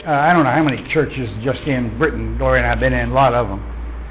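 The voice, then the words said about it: Southwest Texas accent. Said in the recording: “my southwestern accent? ... Southwest Texas.”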